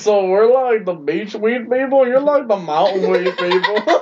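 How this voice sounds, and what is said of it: Southern twang. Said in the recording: “You got some southern twang in there, dude.”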